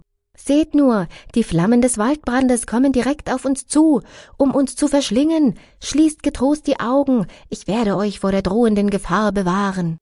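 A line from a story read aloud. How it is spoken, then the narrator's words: Woman calling to companions. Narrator (German): Eine andere Gopi rief ihren Gefährtinnen zu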